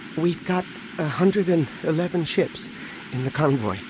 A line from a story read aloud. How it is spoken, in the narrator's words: Anakin said nervously